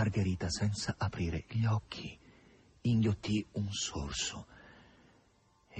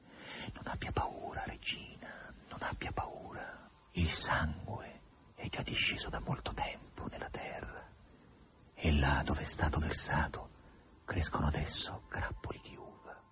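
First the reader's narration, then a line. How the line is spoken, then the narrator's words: Two voices whispering. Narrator (Italian): Due voci le sussurrarono in tutte e due gli orecchi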